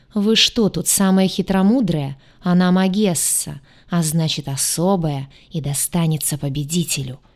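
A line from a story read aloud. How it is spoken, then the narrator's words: Hissing. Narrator (Russian): Зашипели остальные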